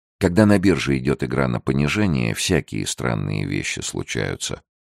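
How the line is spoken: Calm, wise objection. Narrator (Russian): спокойно и мудро возразил Фрэнсис

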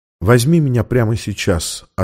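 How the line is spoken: Quiet reply. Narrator (Russian): ответила она тихо

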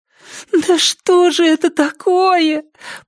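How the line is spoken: Groaning. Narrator (Russian): простонала Триша

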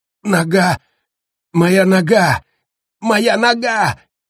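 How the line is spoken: Uncontrollable scream. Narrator (Russian): закричал он, не в силах удержаться

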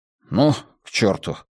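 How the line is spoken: Muttering. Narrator (Russian): пробормотал стрелок

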